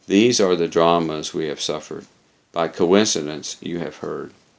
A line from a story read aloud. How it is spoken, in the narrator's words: Eleni said with a deep sigh